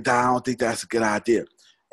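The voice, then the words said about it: Imitates another person's voice. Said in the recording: “He talked like this here ... that's exactly what his voice sounds like. I promise you, I'm pretty good with impersonations.”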